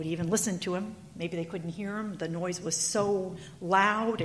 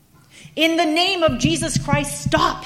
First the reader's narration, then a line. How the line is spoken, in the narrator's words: he yelled